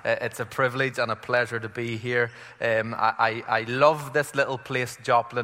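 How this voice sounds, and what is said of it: Irish accent. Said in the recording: “it felt like Ireland ... I hope you can understand my accent.”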